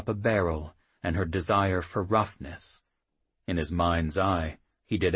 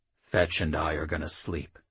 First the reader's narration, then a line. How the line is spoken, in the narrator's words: the thrice said quietly